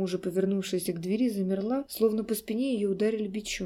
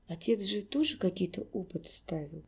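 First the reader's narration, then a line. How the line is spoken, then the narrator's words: Barely audible. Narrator (Russian): Теперь Олег говорил едва слышно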